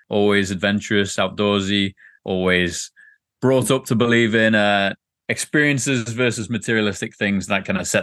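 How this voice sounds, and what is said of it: English Liverpool accent. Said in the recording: “as you can tell from the accent, not originally from San Diego ... originally from Liverpool, England”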